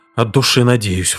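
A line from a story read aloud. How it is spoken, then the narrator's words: Exhaled breathy. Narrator (Russian): выдохнул Пакстон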